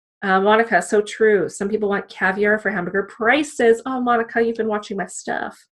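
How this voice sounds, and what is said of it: Crackly voice, recovering from illness. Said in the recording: “I'm still getting over the flu, so my voice is all crackly.”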